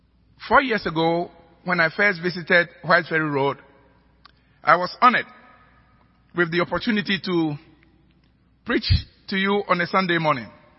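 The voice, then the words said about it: African-accented English. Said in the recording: “my accent had inconvenienced you ... sermons brewed in an African pot”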